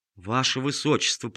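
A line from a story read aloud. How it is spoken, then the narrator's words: Mutter. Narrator (Russian): пробормотал он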